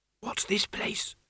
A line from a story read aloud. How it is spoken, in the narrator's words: she whispered